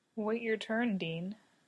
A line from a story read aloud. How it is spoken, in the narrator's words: Lucifer murmurs